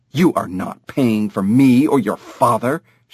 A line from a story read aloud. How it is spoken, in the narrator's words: she snapped